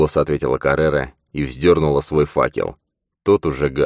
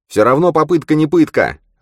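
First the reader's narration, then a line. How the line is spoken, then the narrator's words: Snapping retort. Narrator (Russian): огрызнулся Манни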